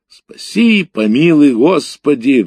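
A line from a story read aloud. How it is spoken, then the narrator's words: Old man roaring. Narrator (Russian): взревел дедок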